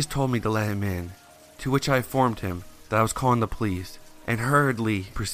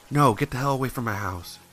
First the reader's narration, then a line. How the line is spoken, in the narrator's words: Using my remaining courage, I mustered up enough to tell him not so gently